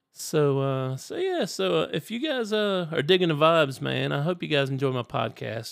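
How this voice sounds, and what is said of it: Froggy, hoarse voice. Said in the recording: “my voice is like getting froggy”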